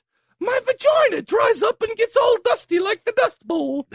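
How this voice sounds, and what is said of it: Put-on English accent. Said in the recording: “I'm going to say this in an English accent”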